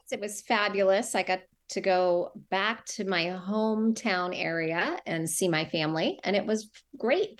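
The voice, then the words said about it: Strong Massachusetts accent. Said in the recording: “I can detect the Massachusetts accent now... Coming out in full force”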